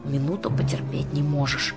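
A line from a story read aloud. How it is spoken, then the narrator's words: Muffled displeased wheeze. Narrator (Russian): Недовольно просипела Жанна из-под повязки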